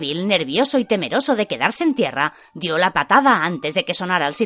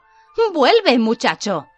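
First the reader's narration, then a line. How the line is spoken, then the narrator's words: Shout. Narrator (Spanish): gritó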